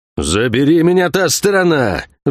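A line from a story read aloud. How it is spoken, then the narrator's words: Impatient roar. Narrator (Russian): взревел Кивилдамонтаг, теряя терпение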